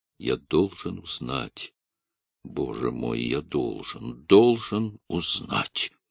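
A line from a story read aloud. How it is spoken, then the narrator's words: Low, delirious repetition. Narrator (Russian): повторял вполголоса, точно в бреду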